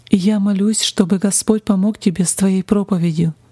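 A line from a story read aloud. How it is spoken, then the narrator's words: Plain. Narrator (Russian): сказал он другу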